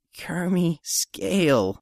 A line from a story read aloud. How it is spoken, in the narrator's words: Codit groaned